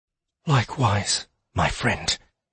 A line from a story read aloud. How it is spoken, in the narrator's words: whispered